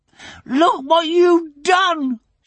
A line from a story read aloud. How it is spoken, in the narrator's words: she shouted